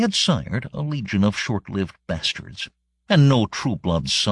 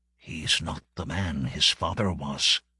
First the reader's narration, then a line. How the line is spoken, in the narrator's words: all murmur